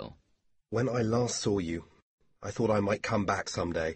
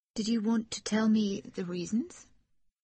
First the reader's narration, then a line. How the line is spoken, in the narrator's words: She asked timidly